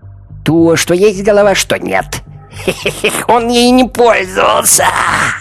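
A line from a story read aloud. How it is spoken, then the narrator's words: Shrill cackling laughter. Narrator (Russian): Хозяйка пауков визгливо расхохоталась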